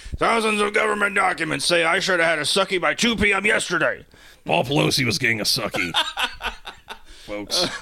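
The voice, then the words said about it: Imitates another person's voice. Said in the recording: “In red Alex Jones being like ... my Alex Jones impression is serviceable”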